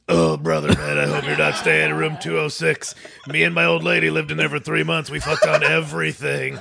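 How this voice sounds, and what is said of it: Exaggerated impersonation of a friend. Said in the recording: “my best Rotney impersonation, which is just an exaggerated version of myself”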